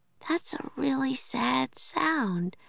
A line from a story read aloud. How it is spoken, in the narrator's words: said Annie sleepily